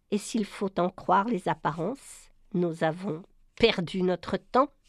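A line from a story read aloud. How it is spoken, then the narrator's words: Bitter voice. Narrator (French): Et Brian conclut d'une voix amère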